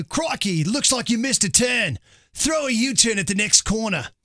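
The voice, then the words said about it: Put-on Australian accent. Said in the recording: “Changed the navigation system over to the Australian voice ... the crocodile hunter ... talk to you that way in an Australian accent”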